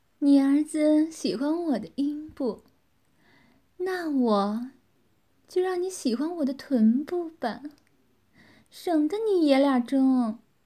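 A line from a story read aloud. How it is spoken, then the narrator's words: Smiling woman. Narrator (Chinese): 女子微笑着说道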